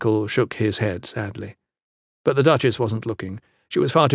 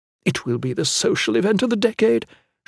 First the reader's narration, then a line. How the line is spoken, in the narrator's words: said excitedly